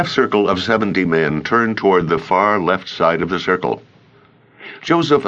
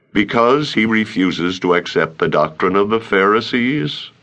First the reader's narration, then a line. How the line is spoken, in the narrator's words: asked calmly